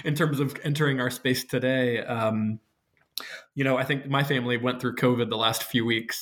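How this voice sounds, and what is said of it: Voice rough from lingering cough. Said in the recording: “as you'll hear from my voice, like a little bit of a lingering cough”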